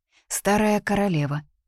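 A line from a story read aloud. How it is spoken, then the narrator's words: Calm explanation. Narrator (Russian): спокойно пояснила Дора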